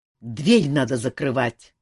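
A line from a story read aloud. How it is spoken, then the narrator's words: Angry snap, king. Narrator (Russian): сердито огрызнулся король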